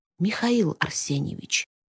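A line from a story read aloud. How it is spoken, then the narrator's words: Soft call. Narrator (Russian): тихонько позвала колдунья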